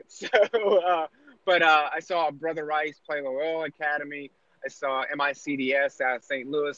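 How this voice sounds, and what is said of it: East Coast American accent. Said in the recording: “An East Coast guy. It's just the accent.”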